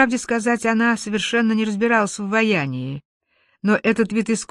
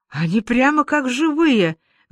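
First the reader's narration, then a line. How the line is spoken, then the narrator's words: Enthusiastic girl exclaiming. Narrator (Russian): воскликнул девушка с воодушевлением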